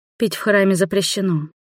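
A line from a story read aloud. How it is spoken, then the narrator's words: Dry statement. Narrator (Russian): сухо констатировала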